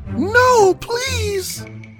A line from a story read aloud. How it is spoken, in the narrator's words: cried Rapunzel as the prince fell